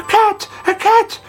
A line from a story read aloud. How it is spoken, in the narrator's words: they cried